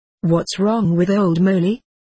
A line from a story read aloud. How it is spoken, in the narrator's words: asked one